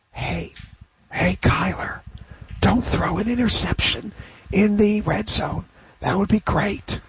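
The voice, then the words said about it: Whispering. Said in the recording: “my impersonation of a quarterback whisperer ... my quarterback whisper? That's my QB whisper impersonation.”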